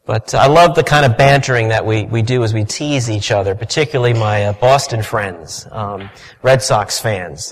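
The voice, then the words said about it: New York accent. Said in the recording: “my being a New Yorker ... my accent may give that away a little bit”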